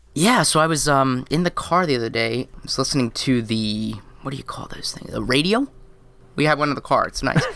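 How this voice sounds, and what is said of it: Slightly hoarse, gravelly voice. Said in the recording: “I started off the week a little sick. You can probably still hear that in my voice ... got a little frog there ... Some gravel.”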